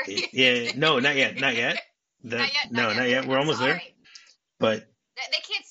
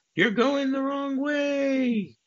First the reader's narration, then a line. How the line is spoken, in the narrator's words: he screams